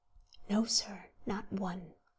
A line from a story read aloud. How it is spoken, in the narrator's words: whispered the waiter, putting his mouth nearly close to the warden's ear